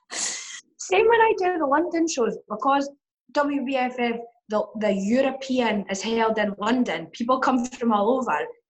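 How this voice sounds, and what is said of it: Hoarse, sore-throated voice. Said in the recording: “I've got a very sore throat, so I probably sound sexier than normal with my voice”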